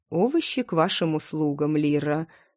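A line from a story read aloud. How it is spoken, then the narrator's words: Snorting. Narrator (Russian): Катар фыркнул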